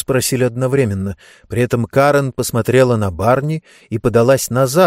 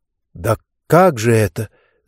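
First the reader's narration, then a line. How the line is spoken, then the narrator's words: Choked, strained voice. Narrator (Russian): сдавленным голосом проговорил Барни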